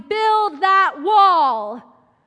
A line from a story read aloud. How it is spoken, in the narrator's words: the sound of white students shouting